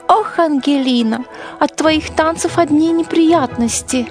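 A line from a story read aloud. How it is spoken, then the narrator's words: Sigh. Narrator (Russian): вздохнула миссис Маслинг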